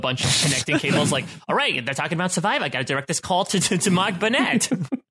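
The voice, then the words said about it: Old-school telephone operator voice. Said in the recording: “with that accent ... Good telephone operator voice ... Very on point.”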